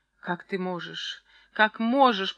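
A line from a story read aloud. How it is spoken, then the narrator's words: Moan. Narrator (Russian): простонала Варвара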